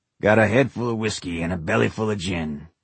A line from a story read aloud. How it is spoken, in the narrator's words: Dave sang in his rasping voice